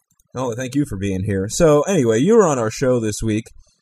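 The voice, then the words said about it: Hoarse, strained voice. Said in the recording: “for some reason I've just totally lost my voice.”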